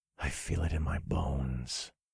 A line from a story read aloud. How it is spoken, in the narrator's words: I whispered